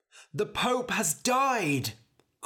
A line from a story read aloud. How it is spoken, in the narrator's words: cried a man